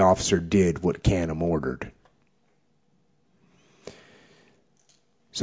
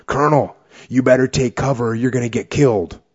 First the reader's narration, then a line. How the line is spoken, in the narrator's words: yelled out